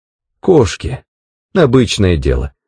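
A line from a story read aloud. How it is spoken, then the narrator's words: Plain. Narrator (Russian): ответил я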